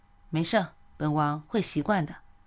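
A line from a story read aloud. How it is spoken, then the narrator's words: Tender. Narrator (Chinese): 夏侯玉 一脸温柔地说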